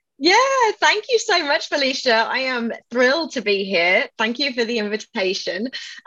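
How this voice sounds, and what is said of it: English accent. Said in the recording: “people hear my voice and they assume that I'm British ... my accent is from England”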